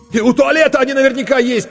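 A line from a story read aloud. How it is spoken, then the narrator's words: Nearly shouting. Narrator (Russian): почти закричал Коля Корноухов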